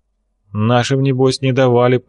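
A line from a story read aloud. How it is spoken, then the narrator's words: Angry, through clenched teeth. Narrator (Russian): процедил Косухин, который в этот вечер был особо зол на белую кость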